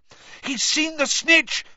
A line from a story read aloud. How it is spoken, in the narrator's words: Harry shouted